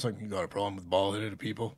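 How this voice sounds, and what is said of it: Braun Strowman impression. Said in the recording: “that's a great impression.”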